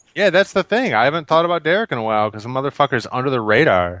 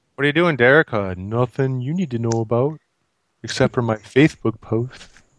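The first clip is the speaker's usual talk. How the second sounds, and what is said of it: Put-on Canadian accent with lisp. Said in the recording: “Did you just give him a Canadian accent? ... Canadian lisping accent.”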